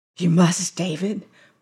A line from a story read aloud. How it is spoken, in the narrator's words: whispered Carey